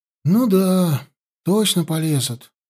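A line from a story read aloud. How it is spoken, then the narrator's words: Drummer's sigh. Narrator (Russian): вздохнул барабанщик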